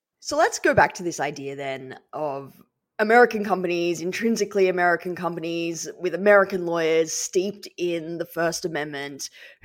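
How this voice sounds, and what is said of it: Non-American accent. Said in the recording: “listeners can tell my accent. You know, I come from a very different free speech culture”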